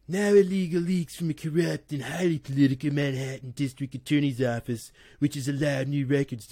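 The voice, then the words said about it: Donald Trump impression. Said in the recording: “do his voice because I can't do his voice very well”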